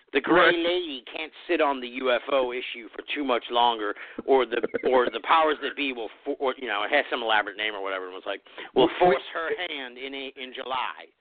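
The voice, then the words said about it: Imitates another person's voice. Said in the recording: “is that your Grant Cameron impression? ... that was pretty solid ... my cryptic disclosure guy”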